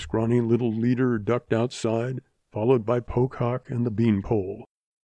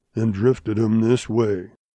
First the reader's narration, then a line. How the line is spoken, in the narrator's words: growled Grizzly